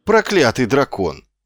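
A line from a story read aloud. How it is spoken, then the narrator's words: Exclaimed. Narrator (Russian): воскликнул Муть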